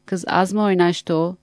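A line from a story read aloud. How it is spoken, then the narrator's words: Plain. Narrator (Turkish): dedi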